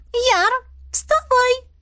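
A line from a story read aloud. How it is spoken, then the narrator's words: Squeaky. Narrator (Russian): пропищала Мазари, моя очаровательная Ньяша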